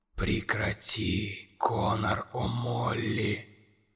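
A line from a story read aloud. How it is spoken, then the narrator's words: Monster speaking softly. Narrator (Russian): мягко проговорило чудовище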